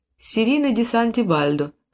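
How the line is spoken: Plain. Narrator (Russian): сказала Серина

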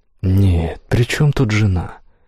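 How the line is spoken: Heavy sigh. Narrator (Russian): Игорь тяжело вздохнул

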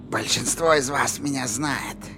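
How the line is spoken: Creaky voice. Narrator (Russian): проскрипела она

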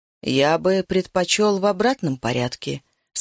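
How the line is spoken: Plain. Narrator (Russian): сказал я

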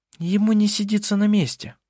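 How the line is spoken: Proud sighing remark. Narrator (Russian): не без гордости произнесла, вздохнув Винга

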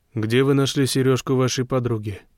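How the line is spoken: Plain. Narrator (Russian): спросил он

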